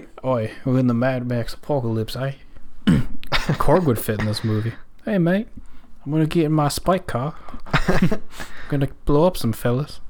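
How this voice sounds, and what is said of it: Put-on Australian accent. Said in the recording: “90% of the people have Australian accents.”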